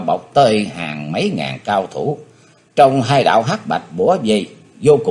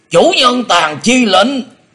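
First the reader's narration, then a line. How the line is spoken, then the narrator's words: Thunderous shout. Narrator (Vietnamese): quát chấn động cả rừng cây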